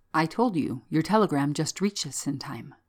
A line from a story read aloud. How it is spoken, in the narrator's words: The inspector, a trifle gravely, said